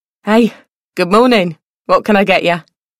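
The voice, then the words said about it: London accent. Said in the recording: “in a London accent.”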